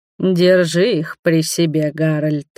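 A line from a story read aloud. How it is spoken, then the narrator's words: Steely voice. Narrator (Russian): стальным голосом проговорил Роберт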